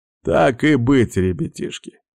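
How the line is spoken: Old man's voice. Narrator (Russian): старческим голосом проговорил вепрь

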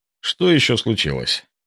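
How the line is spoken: Tired mumble. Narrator (Russian): пробормотал, чувствуя, как усталость вчерашнего дня вцепилась в мое тело мертвой хваткой

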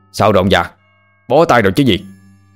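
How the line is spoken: Shouting. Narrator (Vietnamese): Ông thầy cai lạy và người nhà đuổi tà quát lên

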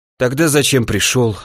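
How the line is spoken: Sighing. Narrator (Russian): вздохнул

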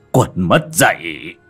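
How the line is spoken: Old man's shout. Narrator (Vietnamese): Lão giả áo trắng liền quát lên

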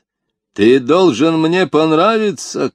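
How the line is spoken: Shouting chief. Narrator (Russian): крикнул вождь

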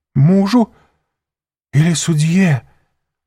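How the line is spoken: Faltering babble. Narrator (Russian): пролепетала госпожа де Вильфор

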